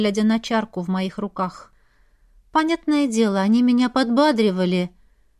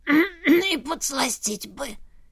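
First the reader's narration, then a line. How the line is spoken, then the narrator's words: Hoarse grumble. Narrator (Russian): сипло проворчала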